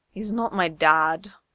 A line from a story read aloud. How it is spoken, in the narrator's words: Izuku mumbles